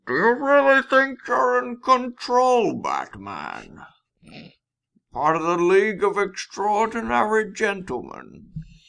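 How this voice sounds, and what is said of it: Villain voice, hollow, Connery-like. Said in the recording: “It's basically just a Sean Connery impression ... you got to cover up your mouth, so it's got a little bit of a hollow sound to it”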